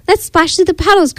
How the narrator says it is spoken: cried Piggy

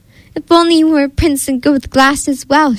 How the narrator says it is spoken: she sighed

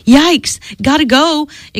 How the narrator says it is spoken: exclaimed Dee and Tyler at the same time

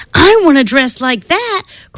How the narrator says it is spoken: cried Emily

